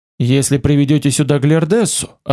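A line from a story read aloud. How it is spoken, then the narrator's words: Plain. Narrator (Russian): ответил я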